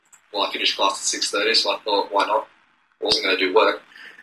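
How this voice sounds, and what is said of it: Foreign accent. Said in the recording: “I'm foreign... the accent... accents don't lie. Clearly that's coming from somewhere”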